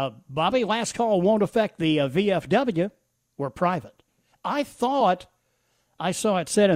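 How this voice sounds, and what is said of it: Usual voice. Nothing is said of it.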